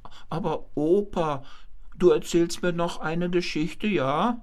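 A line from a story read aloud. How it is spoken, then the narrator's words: Grandfather's squeaky voice. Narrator (German): der Großvater machte sich ein wenig klein und fragte mit piepsiger Stimme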